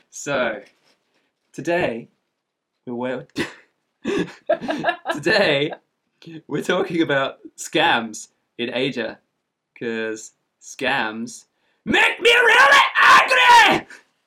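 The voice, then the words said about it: Loud, angry Scottish accent. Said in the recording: “Angry Scotsman ... this is really quite a loud accent compared to some of my other interesting accents.”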